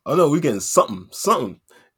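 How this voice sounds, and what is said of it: Bad put-on American accent. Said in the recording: “my terrible American accents”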